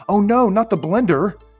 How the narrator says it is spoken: Adam cried

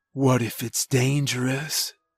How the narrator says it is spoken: he whispered

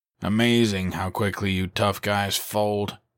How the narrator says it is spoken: he scoffed

